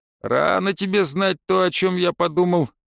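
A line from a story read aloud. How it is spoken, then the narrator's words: Calm chuckle. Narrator (Russian): успокоился Гонсард и хохотнул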